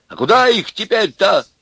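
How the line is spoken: Shouting. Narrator (Russian): закричал и Аристарх

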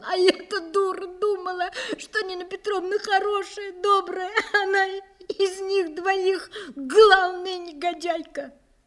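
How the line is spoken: Sobbing speech. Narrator (Russian): она продолжала всхлипывать, всхлипывая, сказала

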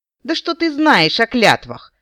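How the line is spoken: Insolent, sneering question. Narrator (Russian): вопиюще наглым тоном спросила девушка, кривя в жестокой ухмылке губы

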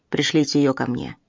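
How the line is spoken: Muttered. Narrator (Russian): пробурчал он

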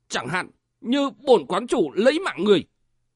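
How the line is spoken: Sharp shout. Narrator (Vietnamese): quát

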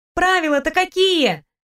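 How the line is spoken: Shouted. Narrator (Russian): прокричала

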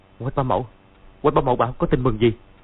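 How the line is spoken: Trembling, surprised, joyful question. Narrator (Vietnamese): Dương Quá vừa kinh ngạc vừa vui mừng run run hỏi

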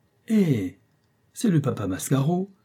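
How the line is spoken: Young man exclaiming. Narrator (French): s'écria un jeune homme

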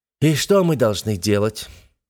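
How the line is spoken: Breathless exhale. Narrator (Russian): выдохнул он, как навьюченный стирх

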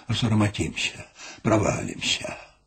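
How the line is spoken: Anxious shivering mumble. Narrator (Belarusian): ён, паціскаючыся ад холаду і хвалявання, мармытаў

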